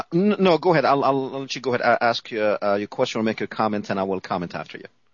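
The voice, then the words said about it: Middle Eastern accented English. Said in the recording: “I had originally pegged your accent as Persian, but are you from Palestine?”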